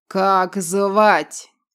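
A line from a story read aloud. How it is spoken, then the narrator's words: Booming growl. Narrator (Russian): раскатисто прорычал незнакомец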